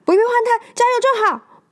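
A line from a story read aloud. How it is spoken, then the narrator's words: Shouting. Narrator (Chinese): 麦昆对着工作人员大喊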